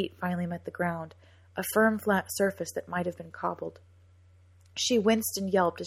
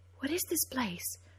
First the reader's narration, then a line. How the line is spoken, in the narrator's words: whispered Cora up to Jem in the dark